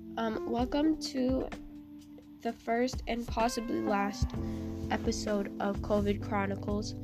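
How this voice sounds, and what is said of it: Sick-sounding voice. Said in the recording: “I have COVID, if you can't tell by my voice.”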